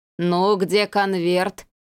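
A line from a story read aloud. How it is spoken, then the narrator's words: Sepulchral voice. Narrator (Russian): спросил он загробным голосом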